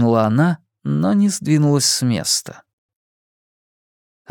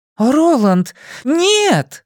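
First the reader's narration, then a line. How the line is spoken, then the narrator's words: Shouted. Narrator (Russian): закричала Маргарет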